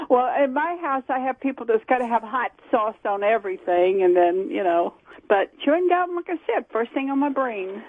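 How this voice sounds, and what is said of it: Southern US accent. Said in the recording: “You're hanging on to that accent. ... South Carolina.”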